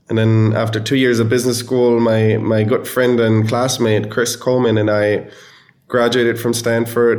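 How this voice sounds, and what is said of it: German accent. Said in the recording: “I'm from Germany originally, hence the funny accent.”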